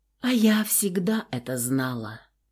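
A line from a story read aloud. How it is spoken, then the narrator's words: Quiet. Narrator (Russian): тихо продолжала Тения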